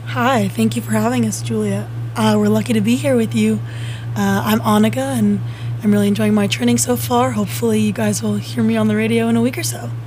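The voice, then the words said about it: Polished radio announcer voice. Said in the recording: “Great radio voice.”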